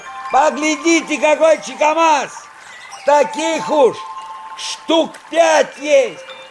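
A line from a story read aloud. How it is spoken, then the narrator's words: Excited shouting. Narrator (Russian): После каждой удачной ловли он кричал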